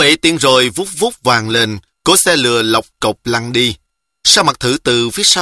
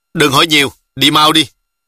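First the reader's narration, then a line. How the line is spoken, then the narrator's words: Shout. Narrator (Vietnamese): La Tiểu Hổ quát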